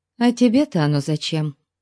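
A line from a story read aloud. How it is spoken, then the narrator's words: Gloomy question. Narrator (Russian): мрачно спросила она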